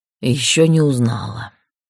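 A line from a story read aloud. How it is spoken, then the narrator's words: Sighing. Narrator (Russian): вздохнул голос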